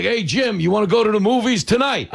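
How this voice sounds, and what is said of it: Gruff regional accent, bookie-like. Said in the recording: “a lot of women who have my accent ... It sounds like a bookie calling to collect.”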